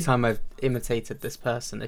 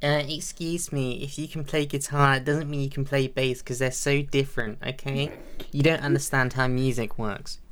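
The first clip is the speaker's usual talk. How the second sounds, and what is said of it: Annoying whiny put-on voice. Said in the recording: “they've got the most annoying voice in the world ... that's just my whiny voice”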